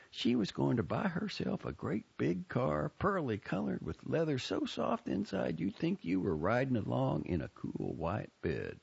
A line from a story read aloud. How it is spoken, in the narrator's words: said dreamily